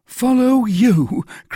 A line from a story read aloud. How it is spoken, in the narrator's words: cried Bonacieux